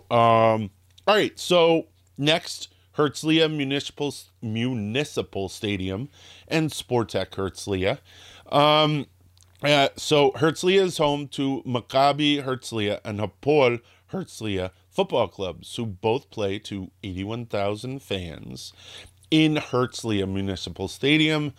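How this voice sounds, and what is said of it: Slightly scratchy voice. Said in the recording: “my voice is, can you hear it? It's getting a little scratchy.”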